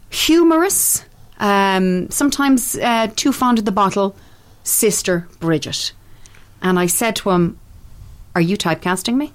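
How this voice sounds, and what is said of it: Irish accent. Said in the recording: “you have an authentic Irish accent ... It's pretty good, isn't it?”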